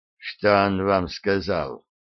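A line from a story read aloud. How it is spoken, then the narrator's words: Quiet, hesitant question. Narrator (Russian): тихо спросил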